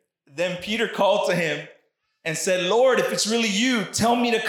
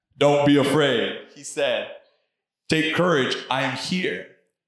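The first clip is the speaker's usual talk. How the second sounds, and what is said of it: Deep voice as Jesus. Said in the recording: “Jesus had a deep voice, okay? He was no punk, all right? Jesus had a deep voice.”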